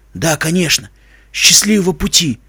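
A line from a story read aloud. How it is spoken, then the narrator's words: Old man mumbling. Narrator (Russian): бормочет старик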